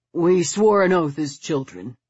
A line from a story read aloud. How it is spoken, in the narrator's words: he said in a dull voice